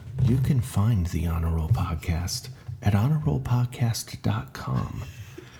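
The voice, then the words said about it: NPR radio announcer voice. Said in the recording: “my NPR voice”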